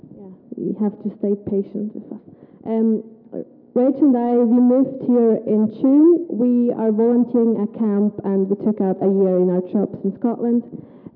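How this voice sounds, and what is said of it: Swiss German accent in English. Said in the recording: “My accent is weird because I'm from Switzerland and I'm from the German part”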